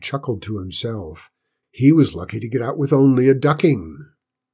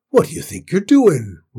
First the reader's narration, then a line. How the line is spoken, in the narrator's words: roared Tim